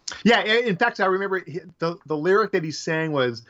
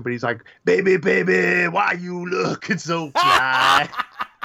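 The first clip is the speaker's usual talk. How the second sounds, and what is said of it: Danny Trejo impression. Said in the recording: “I'm going to do a terrible Danny Trejo impression ... That was actually that was a good Danny Trejo.”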